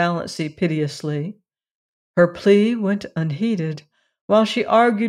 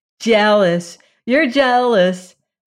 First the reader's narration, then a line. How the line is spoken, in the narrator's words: said the girls mockingly